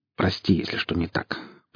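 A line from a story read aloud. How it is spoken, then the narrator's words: Dry, curt. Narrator (Russian): проговорил сталкер сухо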